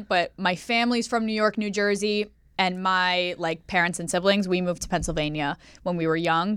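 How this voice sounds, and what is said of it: New York or New Jersey accent. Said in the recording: “are you from Jersey? Because they get confused with the accent. It's the same accent”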